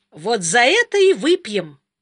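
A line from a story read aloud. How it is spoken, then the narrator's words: Cheerful. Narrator (Russian): весело сказал он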